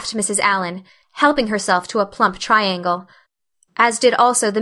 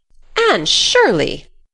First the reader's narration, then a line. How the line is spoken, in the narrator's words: she exclaimed